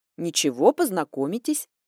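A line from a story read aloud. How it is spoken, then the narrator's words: Displeased muttering. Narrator (Russian): недовольно забурчала себе под нос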